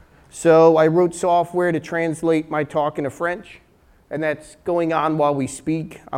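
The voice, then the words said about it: New Jersey accent. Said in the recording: “New Jersey based... French in a New Jersey accent”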